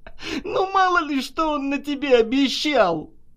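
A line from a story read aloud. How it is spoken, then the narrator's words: Sudden loud laughter. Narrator (Russian): вдруг захохотала Наташа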